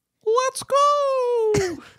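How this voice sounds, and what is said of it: Shrieked imitation of another person's voice. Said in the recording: “I used to do an impression of Tom Brady ... shrieking like that. And he would really shriek it.”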